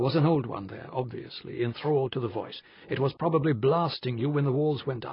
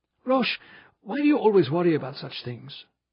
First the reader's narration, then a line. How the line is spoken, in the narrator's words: Benedict pleaded